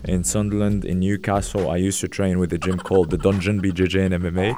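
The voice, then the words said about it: Geordie-tinged Moroccan accent. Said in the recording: “my accent is a fake accent that I can't get rid of ... a bit of a Macam, Geordie, ... Moroccan accent that I can't get rid of it ... it's a Geordie accent”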